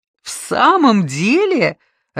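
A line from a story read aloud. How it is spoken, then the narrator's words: Laughing. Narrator (Russian): рассмеялся Боткин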